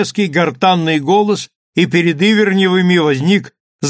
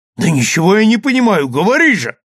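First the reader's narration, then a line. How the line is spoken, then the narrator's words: Impatient exclamation. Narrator (Russian): воскликнул нетерпеливо Ивернев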